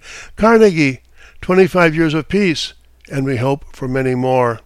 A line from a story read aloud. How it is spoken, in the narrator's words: he exclaimed